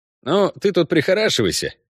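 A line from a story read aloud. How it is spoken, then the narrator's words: Cheerful. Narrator (Russian): бодро сказал ей Ламберт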